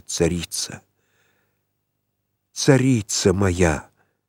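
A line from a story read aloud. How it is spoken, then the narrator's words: Prayerful whisper. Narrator (Russian): прошептал, как молящийся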